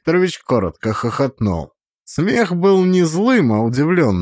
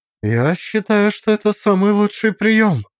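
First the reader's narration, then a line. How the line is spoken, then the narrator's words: Calm, slightly defiant. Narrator (Russian): ответила она спокойно, с легким вызовом в голосе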